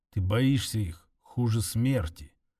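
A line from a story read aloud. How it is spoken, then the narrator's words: Barely audible. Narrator (Russian): едва слышно сказал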